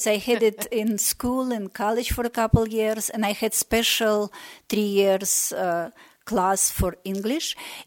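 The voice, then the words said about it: Slight Russian accent in English. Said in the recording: “You still obviously have somewhat of an accent, but your English, your actual grammar and the words in your vocabulary is really excellent and very easy to understand”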